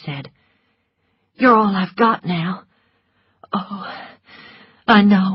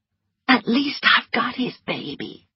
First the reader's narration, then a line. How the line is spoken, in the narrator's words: whispered Melanie